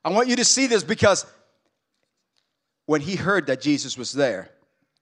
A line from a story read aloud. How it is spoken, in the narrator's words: he cried out